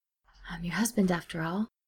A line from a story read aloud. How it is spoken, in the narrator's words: Steed said under his breath